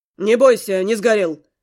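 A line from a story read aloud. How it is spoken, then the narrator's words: Growl. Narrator (Russian): рыкнул Глун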